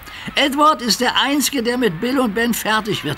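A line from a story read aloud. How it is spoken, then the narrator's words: Giggled. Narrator (German): kicherte Duck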